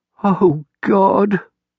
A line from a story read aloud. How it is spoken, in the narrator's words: whimpered